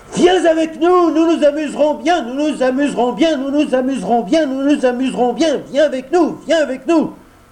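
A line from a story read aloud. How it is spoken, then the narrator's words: Crowd shouting in unison. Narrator (French): hurlèrent ensemble une centaine de voix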